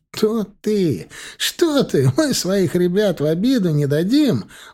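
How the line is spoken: Exclamation. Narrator (Russian): воскликнул Марк Анатольевич

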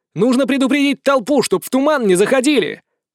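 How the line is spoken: Shouted after someone. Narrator (Russian): прокричал я в спину убегающему ректору

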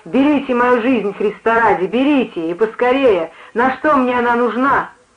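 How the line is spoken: Wild yell. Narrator (Russian): Он диким голосом заорал

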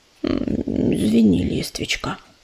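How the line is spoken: Muttering. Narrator (Russian): пробормотал он

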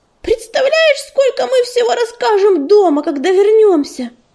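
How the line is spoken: Excited squeal. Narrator (Russian): взвизгнула она

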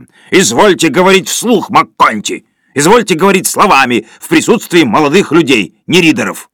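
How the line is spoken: Sudden yell, cracked falsetto. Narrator (Russian): Вдруг Сиверсон заорал над треснутым фальцетом

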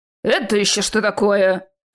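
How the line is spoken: Surprised growl, big man. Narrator (Russian): рыкнул здоровяк, удивленно

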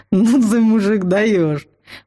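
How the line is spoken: Surprised breathy troll. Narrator (Russian): Удивленно выдохнул тролль

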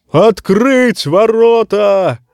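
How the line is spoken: Roaring like war horn. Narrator (Russian): взревел, как боевой рог, сир Клейтон Саги

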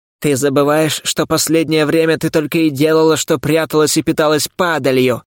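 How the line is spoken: Dismissive snort. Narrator (Russian): хмыкнул Шхарас

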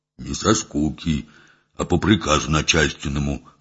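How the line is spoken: Sullen mutter. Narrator (Russian): хмуро буркнул Митька

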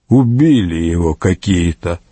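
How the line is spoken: Grumbled, neighbor. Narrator (Russian): проворчал сосед Петерлина Гунтер фон Бишофсгейм

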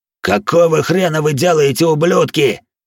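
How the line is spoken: Furious roar. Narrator (Russian): взревел Харви

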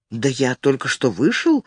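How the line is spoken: Confused. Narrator (Russian): растерянно сказал он

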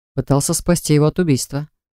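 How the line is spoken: Scoffing snort. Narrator (Russian): хмыкнул Джар

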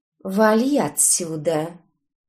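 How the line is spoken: Calm and dignified. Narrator (Russian): Спокойно, с достоинством вымолвила она

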